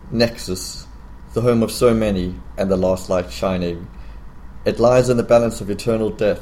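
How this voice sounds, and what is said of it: Unusual accent, cinematic reading voice. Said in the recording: “Excuse my strange accent. ... Best voice ever. Okay, best cinema voice.”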